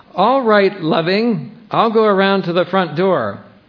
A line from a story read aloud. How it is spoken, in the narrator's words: he shouted back